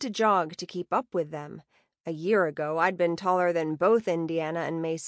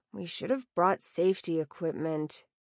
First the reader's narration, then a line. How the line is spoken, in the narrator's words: Indiana mumbled